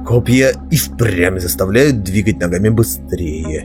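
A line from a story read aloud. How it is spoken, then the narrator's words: Sarcastic growl. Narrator (Russian): саркастически прорычал Белвар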